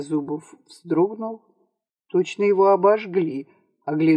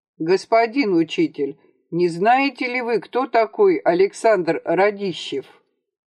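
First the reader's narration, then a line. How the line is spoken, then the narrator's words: Too loud question. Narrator (Russian): громко, чересчур громко для тесной комнатушки спросил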